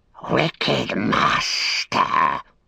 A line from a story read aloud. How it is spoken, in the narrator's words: it hissed